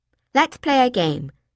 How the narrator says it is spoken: I suggested brightly

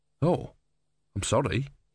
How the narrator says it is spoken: he muttered

